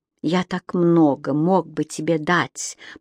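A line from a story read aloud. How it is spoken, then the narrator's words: Whispered. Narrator (Russian): прошептал Кэмерон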